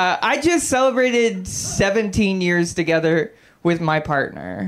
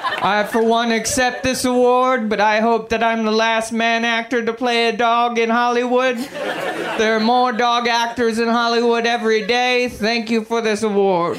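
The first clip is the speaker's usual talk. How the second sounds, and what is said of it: Bad Jeffrey Tambor impression. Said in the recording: “my impression of Jeffrey Tambor is shitty”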